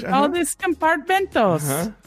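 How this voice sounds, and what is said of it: Mock Spanish accent. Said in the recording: “this your impression of someone who speaks Spanish ... I don't know how to speak Spanish, so I'm just doing the accent”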